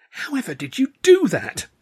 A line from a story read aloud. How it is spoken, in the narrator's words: Stan cried